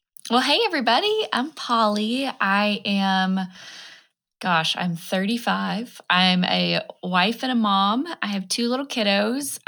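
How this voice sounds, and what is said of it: Groggy, not-yet-warmed-up voice. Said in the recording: “my voice has not woken up today yet”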